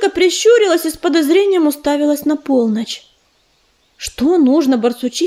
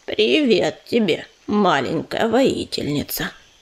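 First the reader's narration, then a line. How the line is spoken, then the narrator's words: Deep booming female voice. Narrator (Russian): прогудела барсучиха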